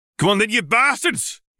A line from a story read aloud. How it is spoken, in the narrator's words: roared